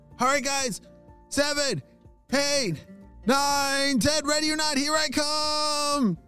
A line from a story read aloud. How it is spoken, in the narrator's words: shouted Sid